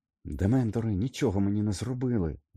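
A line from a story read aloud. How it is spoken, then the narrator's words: Excited exclamation. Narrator (Ukrainian): збуджено вигукнув Гаррі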